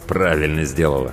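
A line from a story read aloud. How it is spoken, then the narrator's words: Through gritted teeth. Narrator (Russian): сквозь зубы процедил Тимур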